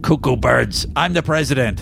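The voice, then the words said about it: Imitates another person's voice. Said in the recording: “in my best Maurice Hurley voice”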